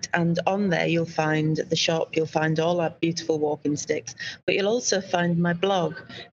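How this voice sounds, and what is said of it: Yorkshire accent. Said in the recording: “my unique Yorkshire accent”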